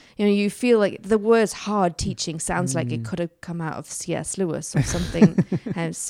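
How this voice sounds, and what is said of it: Usual voice. Nothing is said of it.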